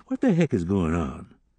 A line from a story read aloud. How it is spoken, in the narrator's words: Tommy sighed